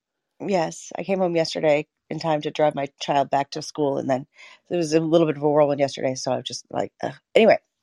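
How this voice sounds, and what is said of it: Hoarse voice. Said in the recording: “I'm quite hoarse from the past few days.”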